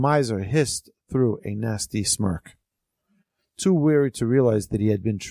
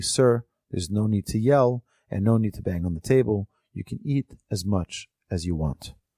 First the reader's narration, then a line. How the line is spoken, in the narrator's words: The benefactor said calmly